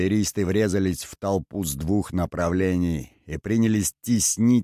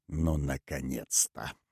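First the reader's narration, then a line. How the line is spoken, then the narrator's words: Muttering. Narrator (Russian): пробормотал Зобчик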